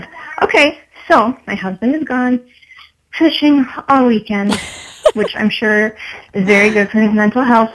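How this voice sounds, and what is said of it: Out of breath, breathless speech. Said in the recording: “I'm out of breath”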